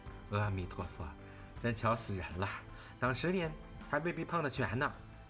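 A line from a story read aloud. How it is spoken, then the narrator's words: Laughing. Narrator (Chinese): 周月家的听了，笑道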